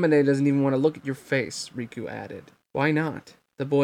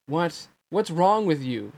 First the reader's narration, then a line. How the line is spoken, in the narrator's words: Sora cried